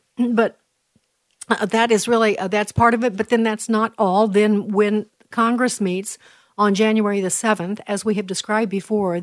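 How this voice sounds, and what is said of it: Hoarse, strained voice. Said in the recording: “I'm losing my voice again this morning”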